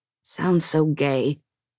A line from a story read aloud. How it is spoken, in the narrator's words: he muttered, bristling like a cactus